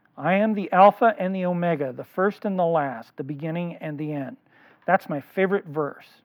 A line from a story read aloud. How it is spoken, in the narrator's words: he read in a firm and clear voice